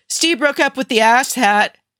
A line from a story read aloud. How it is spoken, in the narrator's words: he shouted over his shoulder